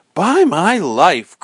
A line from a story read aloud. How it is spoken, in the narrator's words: cried Robin